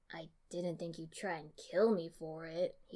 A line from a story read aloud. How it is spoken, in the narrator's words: grumbled